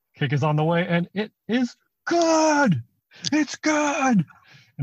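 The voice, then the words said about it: Imitates a sports announcer's call. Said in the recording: “Can we do our best impression? ... his voice”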